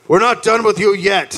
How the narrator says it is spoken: the British yelled

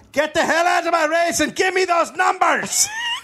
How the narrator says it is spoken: screaming

